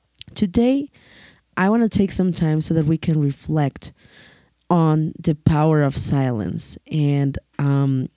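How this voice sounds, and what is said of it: Hoarse, strained voice. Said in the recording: “as you can probably notice, my voice is a little bit hurt... I've had a cold for the past couple of weeks”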